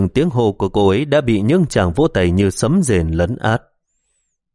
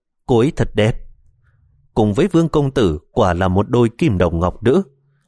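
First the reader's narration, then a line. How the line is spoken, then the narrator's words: Smiling whispers. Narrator (Vietnamese): tất cả khách mời đều mỉm cười, không ít người thì thầm nói nhỏ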